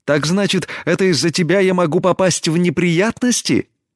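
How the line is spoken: Indignant exclamation. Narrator (Russian): Негодуя воскликнула Тесми

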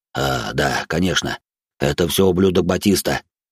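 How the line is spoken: Big man, gritted teeth. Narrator (Russian): процедил сквозь зубы здоровяк

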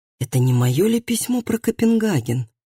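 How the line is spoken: Whisper. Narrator (Russian): прошептал Калеб

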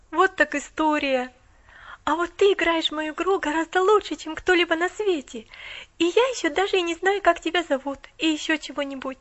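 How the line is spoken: Awed exclamation. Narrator (Russian): Воскликнула Поллианна с благоговейным страхом

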